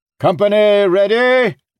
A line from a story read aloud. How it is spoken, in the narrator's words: Dardel shouted the question